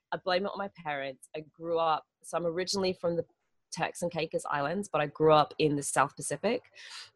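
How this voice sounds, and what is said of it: Mixed accent, partly American. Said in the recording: “It's Globish, darling, Globish. It is from all over the place. ... I've just got lots of different accents meshed together in a really bizarre mix. ... so sometimes people are like, oh my God, you're so American”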